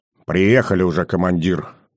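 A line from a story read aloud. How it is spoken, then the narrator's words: Gloomy mutter. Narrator (Russian): мрачно буркнул тот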